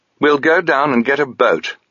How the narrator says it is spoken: Sabriel announced firmly

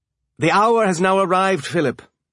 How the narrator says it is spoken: Marco said

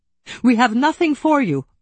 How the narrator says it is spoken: I cried

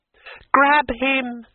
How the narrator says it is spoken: she screamed

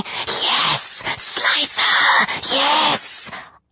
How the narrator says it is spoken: Our glowing orbs swarmed in a frenzy, whispering

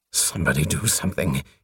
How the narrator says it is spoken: he muttered painfully

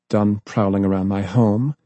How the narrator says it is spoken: she asked, coldly

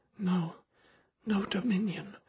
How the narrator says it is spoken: she whispered

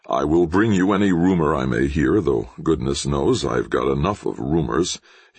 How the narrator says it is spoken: he muttered to himself

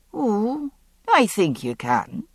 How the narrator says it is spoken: Ian said calmly

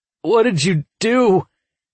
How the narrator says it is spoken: he wailed

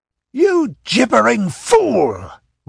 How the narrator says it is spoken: roared Dionys disgustedly

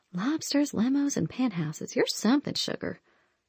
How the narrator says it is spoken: I muttered

